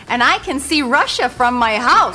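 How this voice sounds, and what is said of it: Sarah Palin impression. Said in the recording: “her Sarah Palin impression ... It was pretty good.”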